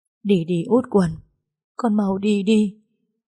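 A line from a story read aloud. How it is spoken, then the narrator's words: Choked, tearful. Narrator (Vietnamese): dì Nguyệt, nước mắt ướt đẫm trên mặt, dì nói trong nghẹn ngào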